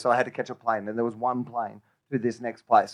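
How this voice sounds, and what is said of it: Australian accent. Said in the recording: “Even with your accent, you make that sound lovely.”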